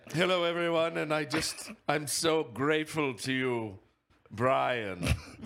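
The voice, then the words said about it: Character voice, slight British accent. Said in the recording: “Berm has a slight British accent.”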